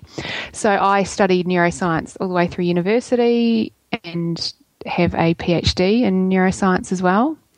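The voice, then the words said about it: New Zealand accent. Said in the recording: “I am a Kiwi, in case you can't tell by my accent.”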